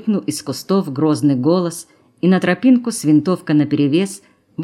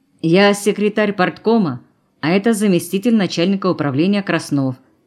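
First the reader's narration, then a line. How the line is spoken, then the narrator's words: Starting to explain. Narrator (Russian): начал было объяснять Дымнов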